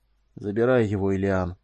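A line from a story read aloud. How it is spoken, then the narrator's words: Tired. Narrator (Russian): сказал он устало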